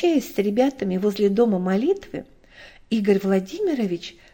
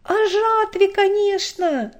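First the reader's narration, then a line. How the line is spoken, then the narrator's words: Eager impatient boy shouting. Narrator (Russian): бойко выкрикнул рыжеволосый и всегда нетерпеливый 12-летний Славик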